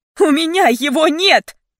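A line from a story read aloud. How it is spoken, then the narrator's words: Thundering. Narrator (Russian): Мои слова прогремели в тишине гостиной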